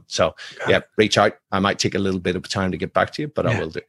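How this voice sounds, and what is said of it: Strong accent. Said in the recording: “Hopefully you could decode the accent”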